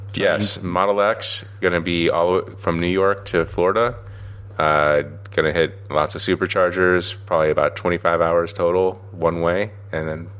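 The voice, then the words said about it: Rough, harsh voice with a cold. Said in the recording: “I'm sick as heck ... having a little cold today, so if you sound a little bit rough ... My voice is a little harsh”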